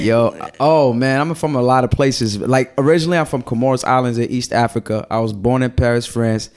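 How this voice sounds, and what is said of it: Mixed accent not fitting region. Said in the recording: “you have an accent ... my accent don't fit like the region where I was grew up”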